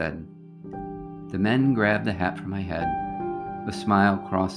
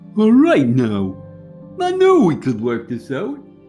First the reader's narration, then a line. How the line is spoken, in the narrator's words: the large hairy man mocked